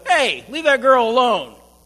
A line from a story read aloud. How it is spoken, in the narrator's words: One even shouted from an upper window